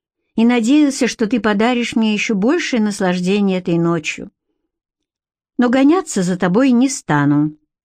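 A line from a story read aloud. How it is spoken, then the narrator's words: Calm reply, male. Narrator (Russian): спокойно ответил он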